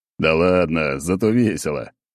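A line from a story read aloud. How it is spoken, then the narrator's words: Laughing. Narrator (Russian): продолжал я хохотать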